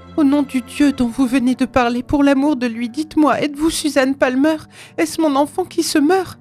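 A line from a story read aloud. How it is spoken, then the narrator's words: Ghostly exclamation. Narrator (French): s'écria l'ombre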